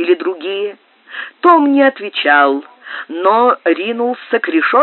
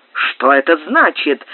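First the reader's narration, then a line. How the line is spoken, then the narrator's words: Angry exclamation. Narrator (Russian): вскричал сердито Смит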